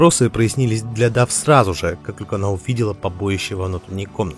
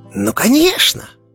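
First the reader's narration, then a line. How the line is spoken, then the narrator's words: Squeaky voice. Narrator (Russian): пропищал Фред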